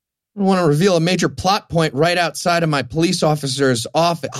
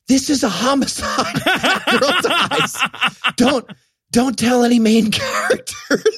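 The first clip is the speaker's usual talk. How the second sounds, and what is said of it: Stage whisper. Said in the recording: “I'll do a stage whisper.”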